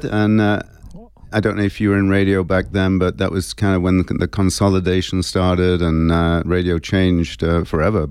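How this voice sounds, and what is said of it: English accent, monotone delivery. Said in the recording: “my incredible, beautiful English accent. But unfortunately, when it's recorded, or even maybe if anyone's listening out there, it's pretty monotone.”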